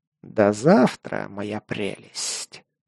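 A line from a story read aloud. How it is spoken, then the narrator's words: Hissing. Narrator (Russian): прошипел изгой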